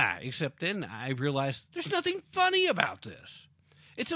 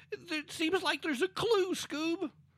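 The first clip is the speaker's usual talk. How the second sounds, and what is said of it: Cartoon Shaggy character voice. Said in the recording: “my Shaggy and Scooby-Doo impersonation.”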